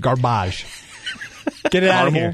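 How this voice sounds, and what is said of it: Mock French chef voice. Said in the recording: “like a French chef ... this is his French chef impersonation”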